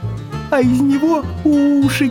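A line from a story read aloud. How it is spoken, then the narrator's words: Shouting hedgehog. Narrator (Russian): кричал ежик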